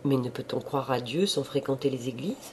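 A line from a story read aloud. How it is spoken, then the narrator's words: Plain. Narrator (French): La marquise répondit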